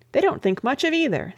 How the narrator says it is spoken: said Ethelbert

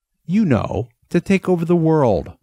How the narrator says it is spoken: Ness said, then almost laughed

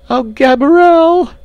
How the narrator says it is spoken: she screamed

